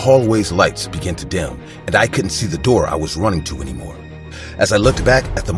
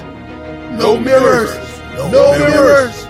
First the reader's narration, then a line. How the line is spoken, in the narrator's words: the motel's staff screaming the words